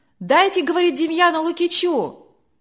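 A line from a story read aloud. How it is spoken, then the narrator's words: Shouting from crowd. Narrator (Russian): кричали из других рядов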